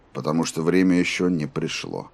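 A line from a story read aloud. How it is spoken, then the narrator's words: Even, steady voice. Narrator (Russian): ровным голосом ответил Роланд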